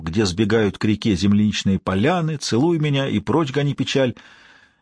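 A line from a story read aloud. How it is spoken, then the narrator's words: Happy hoarse baritone singing. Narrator (Russian): псих Джонни Меллоун счастливо распевал хриплым баритоном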